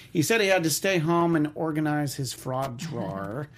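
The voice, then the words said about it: New York accent. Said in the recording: “That's my New York accent. I wanted to call it a fraud draw”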